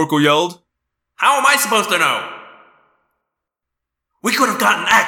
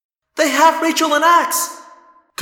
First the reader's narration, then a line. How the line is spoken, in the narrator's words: Cassie said frantically